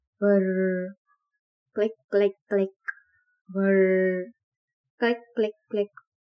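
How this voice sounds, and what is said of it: Imitated creature whirring and clicking. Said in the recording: “Please forgive me if my imitation is not correct, but that's how it's written”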